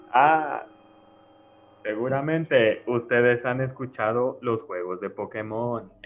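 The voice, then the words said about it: Spooky creepypasta narrator voice. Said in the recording (Spanish): “Tenía que hacer la voz de, de Creepypasta”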